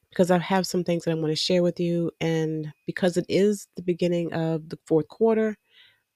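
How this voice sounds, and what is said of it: Nasal, congested voice. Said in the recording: “my voice sounds a little nasal. I've been under the weather”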